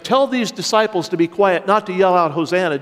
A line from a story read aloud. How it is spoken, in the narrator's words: Jesus said